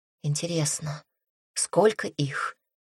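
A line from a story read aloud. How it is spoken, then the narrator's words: Quiet question. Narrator (Russian): спросила тихо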